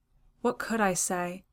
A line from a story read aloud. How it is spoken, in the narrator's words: he asked in the same low tone